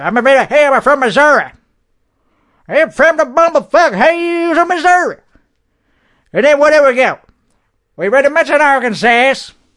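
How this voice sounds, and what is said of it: Put-on redneck accent, elongated syllables. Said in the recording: “I switch lanes to a different type of redneck. He still elongates his syllables. You gotta still elongate your syllables... how to speak in a redneck accent.”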